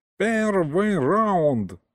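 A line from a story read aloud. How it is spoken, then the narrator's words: Yelled. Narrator (Russian): заорал Гришка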